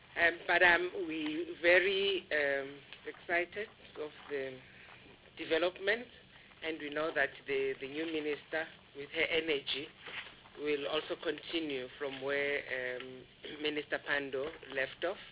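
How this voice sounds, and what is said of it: Sick, strained voice. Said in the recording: “apologize for my voice. I've got flu.”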